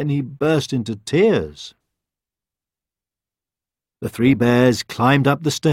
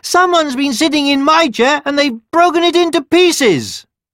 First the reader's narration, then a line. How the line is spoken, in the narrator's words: the baby bear cried